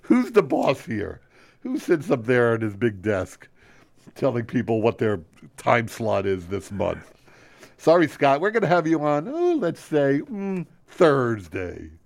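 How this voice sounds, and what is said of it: Imitates another person's voice. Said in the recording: “My impression of Ken Friedman. ... That's a pretty good impression.”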